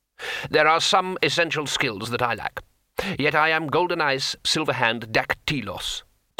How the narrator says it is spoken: said the craftsman

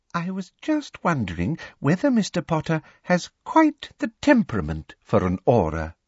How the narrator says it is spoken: said Professor Umbridge sweetly

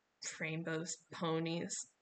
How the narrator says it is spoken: Leo muttered

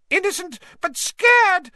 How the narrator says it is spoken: squealed Pettigrew

